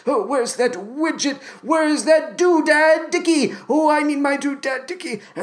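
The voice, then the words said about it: Quiet muttering, gibbering old man voice. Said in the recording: “my Forrest Whitaker impression ... some variation on some gibbering madman. Sometimes he's really quiet and he's just talking to himself.”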